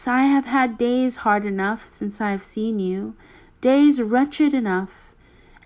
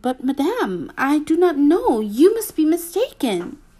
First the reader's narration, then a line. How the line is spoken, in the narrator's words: astonished to be familiarly addressed by this plain good wife, did not recognize her at all and stammered